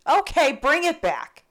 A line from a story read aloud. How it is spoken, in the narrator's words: called out in frustration